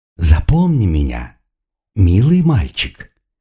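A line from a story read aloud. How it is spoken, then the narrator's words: Purring. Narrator (Russian): промурлыкал демон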